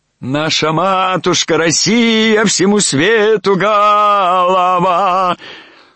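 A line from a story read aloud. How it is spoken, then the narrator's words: Wild singing, choking off. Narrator (Russian): Запел вдруг диким голосом Кирюха, поперхнулся и умолк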